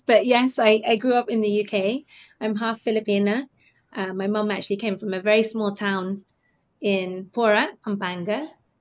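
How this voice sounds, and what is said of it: British accent. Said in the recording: “sound very British ... I get all sorts of questions about my accents, about my accent now ... my accent is gets a bit confused”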